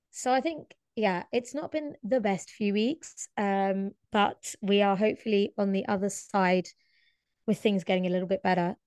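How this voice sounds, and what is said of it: Husky voice. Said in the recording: “my voice sounds a bit different to normal, I have been struck down by my second bout of laryngitis ... it makes me sound a bit huskier ... So I am a bit husky this episode.”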